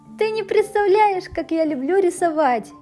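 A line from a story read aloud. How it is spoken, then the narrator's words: Cheerful. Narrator (Russian): весело сказала я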